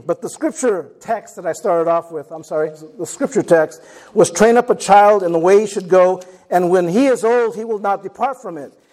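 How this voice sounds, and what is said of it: Hoarse, fading voice. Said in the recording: “I am losing my voice a little bit.”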